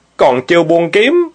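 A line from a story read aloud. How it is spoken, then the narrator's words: Sharp shout. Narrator (Vietnamese): Thiện Nhu lại quát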